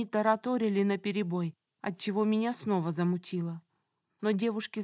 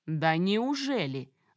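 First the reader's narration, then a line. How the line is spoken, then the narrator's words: Angry smirking. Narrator (Russian): зло усмехнулся тот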